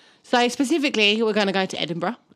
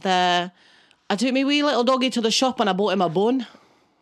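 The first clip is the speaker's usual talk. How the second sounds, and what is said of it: Put-on Scottish accent. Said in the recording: “Can you do a Scottish accent? ... That's the only accent. ... I can do in Scottish. ... that's my best.”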